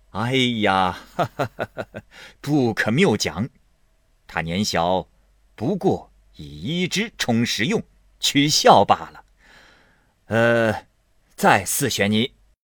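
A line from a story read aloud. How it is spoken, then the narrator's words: Laughing. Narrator (Chinese): 贾政笑道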